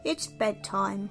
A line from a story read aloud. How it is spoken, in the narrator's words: growled Daddy Lion